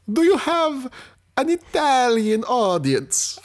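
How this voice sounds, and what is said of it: Put-on Italian accent. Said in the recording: “Oh, yes, Uncle Mario ... I am here to do accents that alienate audiences ... I've just done the Italians.”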